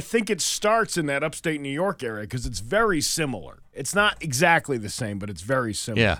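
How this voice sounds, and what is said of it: Usual voice. Nothing is said of it.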